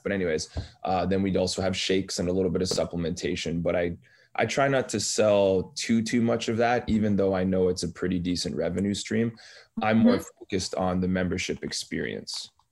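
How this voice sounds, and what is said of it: Slightly scratchy, hoarse voice. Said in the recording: “my voice is a little scratchy”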